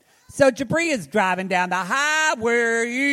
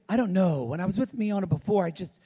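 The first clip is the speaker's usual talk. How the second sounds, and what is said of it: Impression of Jabri. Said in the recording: “That's a great impression.”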